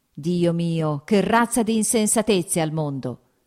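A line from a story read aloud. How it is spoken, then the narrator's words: Sudden shout. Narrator (Italian): gridò improvvisamente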